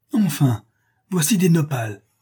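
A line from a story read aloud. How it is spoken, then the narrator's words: Joyful exclamation. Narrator (French): s'écrie-t-il tout joyeux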